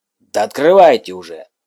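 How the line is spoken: Baron snapping irritably. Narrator (Russian): раздраженно бросает барон

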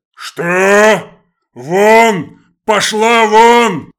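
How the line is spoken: Roaring father. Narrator (Russian): взревел батя

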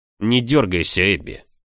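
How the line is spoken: Growl. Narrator (Russian): рыкнул лорд Крион

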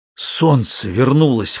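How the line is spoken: Hoarse terrified forcing out. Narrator (Russian): хрипло выдавил Ганданг, охваченный суеверным ужасом

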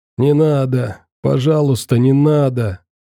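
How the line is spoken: Whimpering. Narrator (Russian): скулил он

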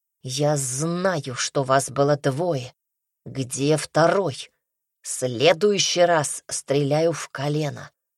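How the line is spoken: Through gritted teeth. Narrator (Russian): незнакомец повторил сквозь зубы

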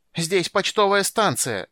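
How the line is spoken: Postmaster shouting from counter. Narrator (Russian): закричал из-за стойки почтмейстер

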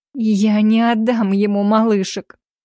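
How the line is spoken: Moaning. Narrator (Russian): простонала я

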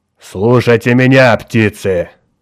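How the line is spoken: Fierce growl. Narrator (Russian): рычал свирепым тоном

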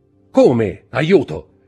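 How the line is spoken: Man shouting. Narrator (Italian): gridò la voce del signore di Villefort

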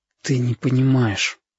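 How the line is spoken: Exhaled. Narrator (Russian): выдохнул Витька

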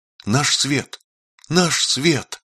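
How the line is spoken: Small child joyfully repeating. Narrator (Russian): маленькому Родиону ... радостно повторяя

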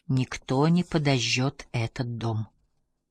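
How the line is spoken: Whisper in ear. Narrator (Russian): прошептал Инвар ей на ухо

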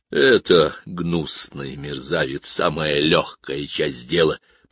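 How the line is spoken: Growl. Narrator (Russian): прорычал

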